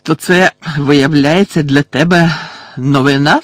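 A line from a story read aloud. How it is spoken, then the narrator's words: Hoarse angry voice. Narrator (Ukrainian): сказав Фадж хрипким від злості голосом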